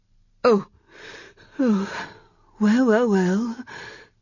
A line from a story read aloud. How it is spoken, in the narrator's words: the eunuch sighed